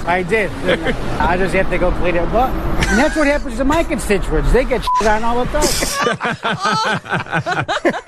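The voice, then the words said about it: Strong Chicago accent. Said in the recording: “That's a great Chicago accent, too. I love that.”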